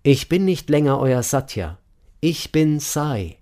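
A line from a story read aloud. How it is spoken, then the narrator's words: Calling out. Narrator (German): rief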